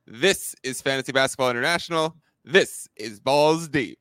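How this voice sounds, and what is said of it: Imitates another person's voice and accent. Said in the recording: “my best Adam King impersonation at the beginning ... Very good. Possibly better than me doing it ... I'll have to work on my accent”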